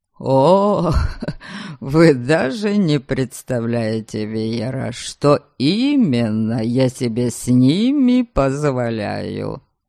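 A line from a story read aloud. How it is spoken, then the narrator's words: Chuckling. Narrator (Russian): Хохотнул Норберг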